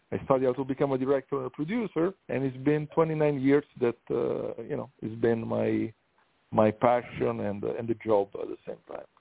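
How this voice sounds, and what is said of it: Italian accent. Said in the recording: “I'm from Italy, that's why the accent.”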